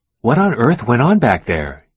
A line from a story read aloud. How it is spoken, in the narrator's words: Young Ho's wife exclaimed